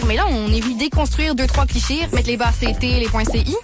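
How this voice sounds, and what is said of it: Attempted Québécois French accent. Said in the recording (French): “Fait que ça, là, c'est supposé d'être l'accent québécois.”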